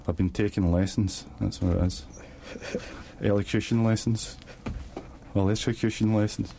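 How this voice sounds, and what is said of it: Strong, hard-to-understand accent. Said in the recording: “Sometimes I can't understand him because of his accent.”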